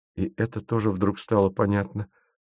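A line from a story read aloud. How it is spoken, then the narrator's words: Muttered. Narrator (Russian): пробормотал Тимофеев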